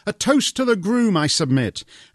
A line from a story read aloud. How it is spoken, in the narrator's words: Michelle gaily cried